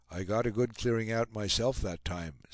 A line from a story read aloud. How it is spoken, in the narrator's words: said Reynal